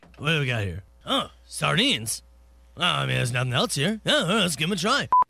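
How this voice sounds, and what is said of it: Imitates another person's voice. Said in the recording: “Your impression... of Joey Bricks grabbing sardines on the way out of the house”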